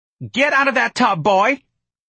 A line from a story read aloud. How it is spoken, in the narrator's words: his mother scream outside the door of the bathroom